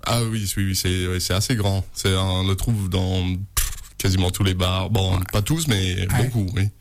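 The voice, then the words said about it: American accent speaking French. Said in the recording (French): “il vient des USA, vous allez voir l'accent merveilleux radiophoniquement, c'est super”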